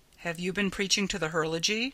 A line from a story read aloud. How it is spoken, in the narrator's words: Ryanson asked